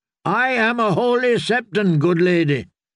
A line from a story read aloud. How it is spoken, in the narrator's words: Marybold had shouted up